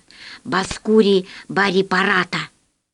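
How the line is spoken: Whispered. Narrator (Russian): сказал шепотом

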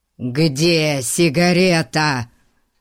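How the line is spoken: Growled. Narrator (Russian): рычал мистер Гун

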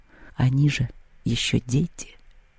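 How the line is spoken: Whispered. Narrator (Russian): прошептала Поляндра

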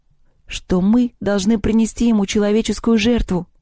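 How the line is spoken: Bursting into sobs. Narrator (Russian): Лёля разрыдалась

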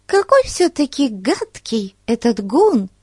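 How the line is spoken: Exclaiming. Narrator (Russian): воскликнула Бетси

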